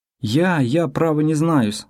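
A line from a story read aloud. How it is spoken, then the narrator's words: Confused babbling. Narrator (Russian): растерянно залепетал он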